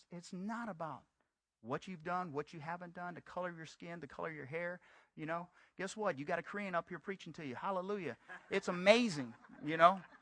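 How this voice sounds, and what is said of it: Southern US-sounding accent. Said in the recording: “I sound like I'm from the South ... you from Texas? ... you got a Southern accent”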